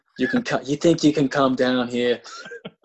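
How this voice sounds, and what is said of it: Gravelly Gotham mobster voice. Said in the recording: “He does that Gotham voice”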